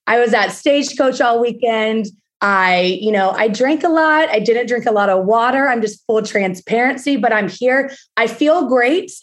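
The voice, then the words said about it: Damaged, worn-out voice. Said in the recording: “I don't normally sound like this. I normally have a functioning voice. ... my voice isn't here”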